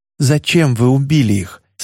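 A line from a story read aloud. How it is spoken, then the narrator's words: Plain. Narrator (Russian): спросил пескоходец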